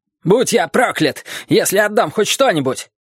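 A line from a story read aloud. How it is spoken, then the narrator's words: Shout. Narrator (Russian): кричал Ли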